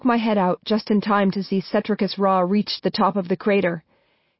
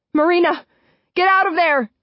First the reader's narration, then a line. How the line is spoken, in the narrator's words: scream